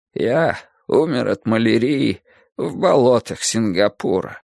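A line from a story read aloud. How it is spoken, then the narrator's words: Old man muttering. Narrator (Russian): старик бормочет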